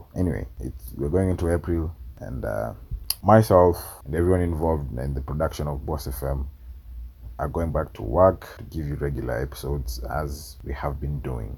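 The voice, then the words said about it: Sore, strained voice. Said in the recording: “My voice is sore”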